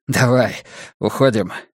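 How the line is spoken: Muttered. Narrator (Russian): пробормотал он

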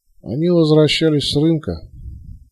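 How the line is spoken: Muffled reluctant male voice. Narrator (Russian): таким же глухим голосом нехотя ответил мужчина в куртке

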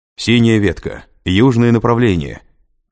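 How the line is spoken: Shouted command. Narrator (Russian): крикнул он бойцам

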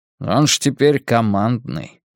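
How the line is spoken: Muttering. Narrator (Russian): бормочет Дик

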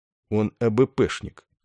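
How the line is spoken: Calm. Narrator (Russian): спокойно уведомил Добза Ясарин

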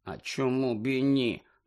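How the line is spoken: Muttered. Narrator (Ukrainian): пробурмотів Рон

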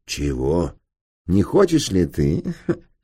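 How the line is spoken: Giggling. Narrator (Russian): Снова хихикнул он

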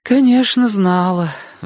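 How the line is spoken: Sighing. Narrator (Russian): вздохнула тетя Лариса

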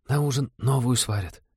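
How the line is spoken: Comforting whisper, young woman. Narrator (Russian): шепотом утешила новичков та же бледная синеглазая девушка

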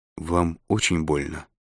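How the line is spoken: Timid question. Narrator (Russian): робко спросила Корделия

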